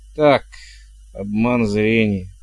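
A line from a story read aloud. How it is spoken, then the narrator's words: Grumbling. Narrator (Russian): буркнул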